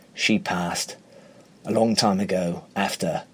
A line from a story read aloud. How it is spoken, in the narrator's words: His voice is husky as he replies